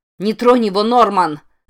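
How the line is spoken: Yelled. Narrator (Russian): заорала она

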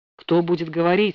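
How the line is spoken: Stern question. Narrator (Russian): спросил он, строго

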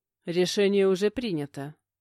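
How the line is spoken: Snort. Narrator (Russian): хмыкнул

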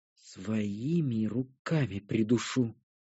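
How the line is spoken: Quiet grumble. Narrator (Russian): буркнула негромко Кара

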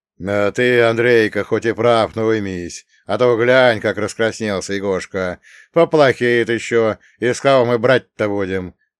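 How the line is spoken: Booming drone. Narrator (Russian): прогудел Нелюб

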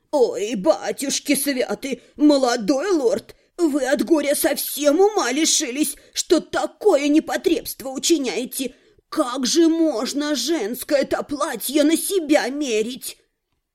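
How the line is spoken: Agitated fussing exclamation. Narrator (Russian): не завизжала, но руками всплеснула и начала

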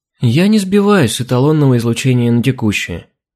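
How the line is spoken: Upset sigh. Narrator (Russian): расстроенно вздохнула Алина

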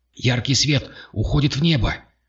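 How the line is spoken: Sharp shout. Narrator (Russian): резко прокричал он

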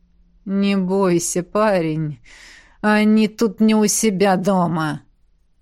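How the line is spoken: Angry words through teeth. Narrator (Russian): Процедил незнакомец с такой злостью

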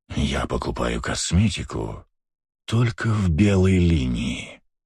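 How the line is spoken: Dramatic whisper. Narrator (Russian): драматичным шепотом проговорил Астарот

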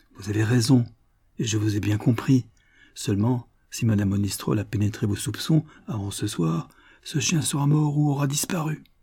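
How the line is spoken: Paternal tone. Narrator (French): sourire mon digne voisin, et d'un ton paternel

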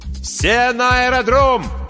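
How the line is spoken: Shouting. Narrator (Russian): кричал Ким

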